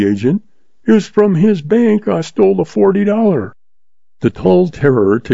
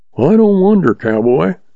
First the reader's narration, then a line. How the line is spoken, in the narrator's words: chuckled the stableman